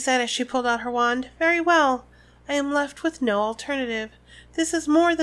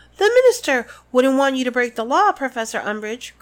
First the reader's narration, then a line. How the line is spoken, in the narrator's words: cried Hermione